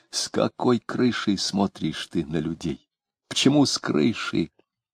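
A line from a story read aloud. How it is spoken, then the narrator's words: Whispered question. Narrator (Russian): он спросил почему-то шепотом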